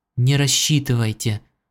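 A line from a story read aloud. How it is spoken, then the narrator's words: Whispered. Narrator (Russian): прошептала она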